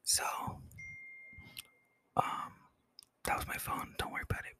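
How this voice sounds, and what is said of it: Whispering. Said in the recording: “Let me start whispering for a second ... this is what it sounds like when I'm whispering”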